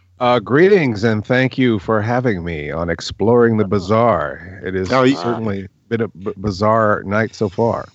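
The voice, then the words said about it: Deep bass radio voice. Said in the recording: “You have a great radio voice ... peanut butter in your bass”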